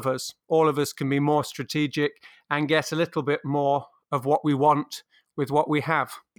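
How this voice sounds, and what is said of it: British accent. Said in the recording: “your beautiful British accent”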